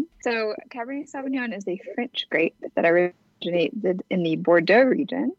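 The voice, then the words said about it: Southern American accent. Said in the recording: “our Southern accent”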